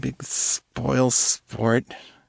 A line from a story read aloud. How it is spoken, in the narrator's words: Jenna slurred